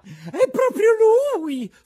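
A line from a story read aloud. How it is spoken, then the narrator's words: Shrieked, lady. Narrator (Italian): strilla la signora Rosaura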